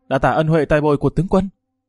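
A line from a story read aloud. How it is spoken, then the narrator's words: Moved, loud. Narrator (Vietnamese): Hứa Chấn trong lòng rất là kích động, lớn tiếng nói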